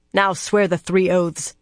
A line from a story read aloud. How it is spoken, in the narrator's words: she spat